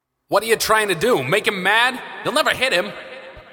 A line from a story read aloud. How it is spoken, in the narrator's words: Augustus shouted